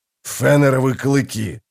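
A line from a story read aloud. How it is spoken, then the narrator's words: Growling. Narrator (Russian): зарычал Блистик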